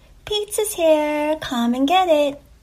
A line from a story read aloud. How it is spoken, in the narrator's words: one of the girls called out